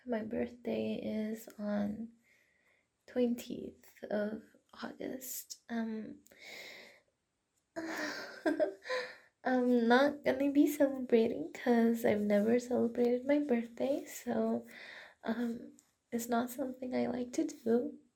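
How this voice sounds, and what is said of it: Hoarse, fading morning voice. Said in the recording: “I'm losing my voice because I just woke up.”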